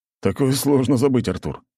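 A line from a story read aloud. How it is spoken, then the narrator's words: Amused snort. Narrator (Russian): хмыкнул Юрий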